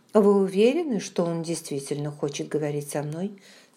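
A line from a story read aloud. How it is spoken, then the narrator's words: Plain. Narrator (Russian): спросила я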